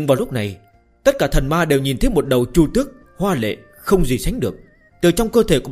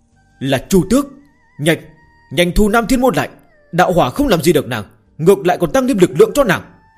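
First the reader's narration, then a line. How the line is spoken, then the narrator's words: Loud fearful shout. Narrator (Vietnamese): Dực La Thiên Vương cảm nhận được sự sợ hãi do thiên địch mang tới mà lớn tiếng la lên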